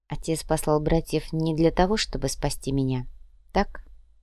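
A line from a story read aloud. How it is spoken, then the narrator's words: Quiet. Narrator (Russian): Клаудия негромко сказала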